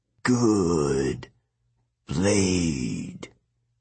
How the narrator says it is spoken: he croaked

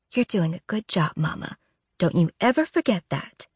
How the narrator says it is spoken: she murmurs

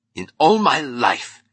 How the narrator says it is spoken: roared Francone

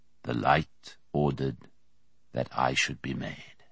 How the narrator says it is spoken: Merriman said softly

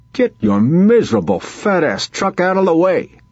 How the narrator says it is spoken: Vince hollered

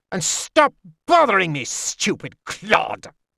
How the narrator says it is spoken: snapped

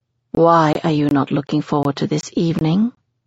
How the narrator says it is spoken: Jessie asks quietly

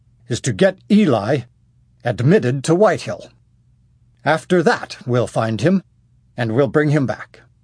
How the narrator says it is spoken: Remenzel quite loudly

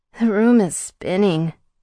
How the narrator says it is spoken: I whimpered

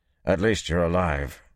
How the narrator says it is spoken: he said gruffly

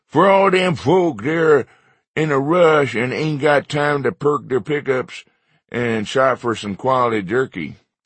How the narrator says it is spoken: In a ridiculous voice, I said

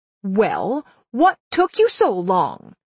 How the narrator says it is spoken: the scarecrow snapped

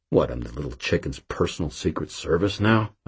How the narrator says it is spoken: I grumbled

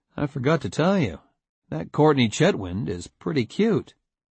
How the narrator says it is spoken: calmly said

